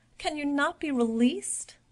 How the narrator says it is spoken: The little sister cried and said

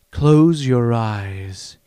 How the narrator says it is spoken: he said, his voice hypnotic

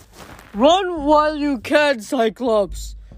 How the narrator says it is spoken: Briar said miserably

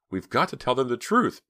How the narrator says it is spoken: Pam pleaded

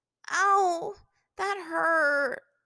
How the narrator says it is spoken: she moaned

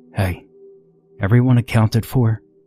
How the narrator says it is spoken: Moon called out softly

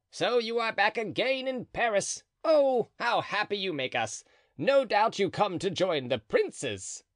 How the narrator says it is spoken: cried Planchet

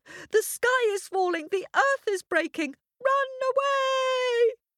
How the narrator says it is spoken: he shouted

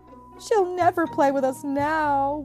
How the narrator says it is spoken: wailed Rex

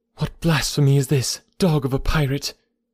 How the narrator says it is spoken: She cried

